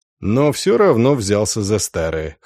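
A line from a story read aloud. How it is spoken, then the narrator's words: Snort. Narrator (Russian): хмыкнул Дан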